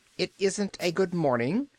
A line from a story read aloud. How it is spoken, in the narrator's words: snapped the little man